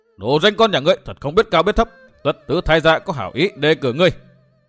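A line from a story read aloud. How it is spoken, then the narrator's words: Old man's loud cursing. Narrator (Vietnamese): lão hét lên một tiếng, lớn tiếng chửi rủa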